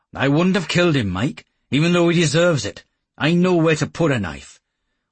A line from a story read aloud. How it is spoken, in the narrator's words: added hastily